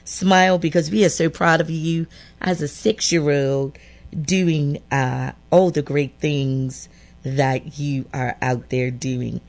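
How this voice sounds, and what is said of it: Strong regional accent. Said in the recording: “Your accent is strong.”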